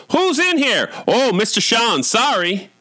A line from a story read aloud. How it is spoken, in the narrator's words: one of the nurses shouted